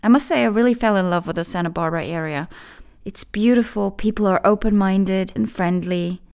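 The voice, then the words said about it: Non-native English with Californian accent. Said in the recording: “the way I speak might remind you a little bit of that area, because it obviously had the biggest influence on my accent.”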